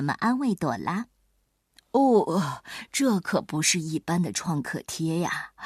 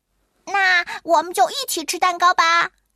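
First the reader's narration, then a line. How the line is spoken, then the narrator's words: Happy shout. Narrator (Chinese): 马克高兴的喊起来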